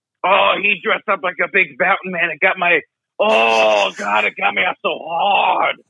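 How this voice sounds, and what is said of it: Usual voice. Nothing is said of it.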